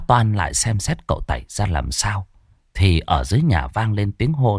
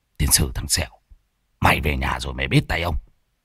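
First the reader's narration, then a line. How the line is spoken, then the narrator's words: Shaken angry mutter. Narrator (Vietnamese): Thầy Môn Phọt bị Lâm Sẹo chọc ngoáy thì tái mặt lẩm bẩm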